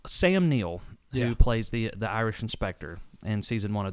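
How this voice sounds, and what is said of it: Usual voice. Nothing is said of it.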